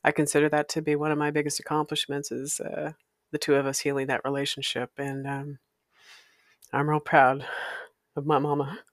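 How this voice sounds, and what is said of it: Emotional, choked-up voice. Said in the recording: “excuse me, I'm getting emotional.”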